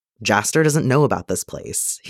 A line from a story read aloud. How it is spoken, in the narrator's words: he says